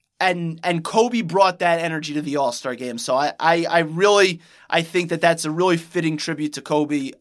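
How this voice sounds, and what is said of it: Choked-up, emotional voice. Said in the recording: “getting a little choked up”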